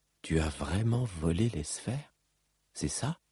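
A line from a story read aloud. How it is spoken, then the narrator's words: Murmured. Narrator (French): murmura Cal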